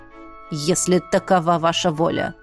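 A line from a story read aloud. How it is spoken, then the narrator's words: Through gritted teeth, furious. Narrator (Russian): процедил Эштон, побелел от бешенства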